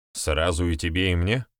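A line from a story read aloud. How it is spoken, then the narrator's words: Grey-haired man's snort. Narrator (Russian): Седой хмыкнул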